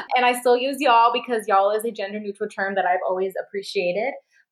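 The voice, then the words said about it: Midwestern accent with heavy A sounds. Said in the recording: “My accent, in English at least, is that Midwestern, weird, very heavy A sounding. And I still carry that”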